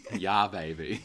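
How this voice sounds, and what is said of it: Impression of an Austin Powers imitation. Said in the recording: “that was my impression of Tom Cruise doing an impression of Austin Powers ... it was spot the fuck on”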